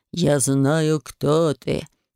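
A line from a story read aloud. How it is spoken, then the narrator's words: Smirking grunt. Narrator (Russian): хмыкнула я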